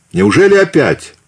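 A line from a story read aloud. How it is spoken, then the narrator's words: Guttural shout. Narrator (Russian): гортанно выкрикнул он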